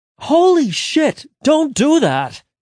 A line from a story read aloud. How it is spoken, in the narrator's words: Angel shouted, confused